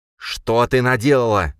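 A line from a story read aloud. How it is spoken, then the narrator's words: Hissed. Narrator (Russian): зашипел он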